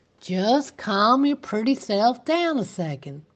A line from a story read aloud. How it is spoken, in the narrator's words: the sheriff said in a slow drawl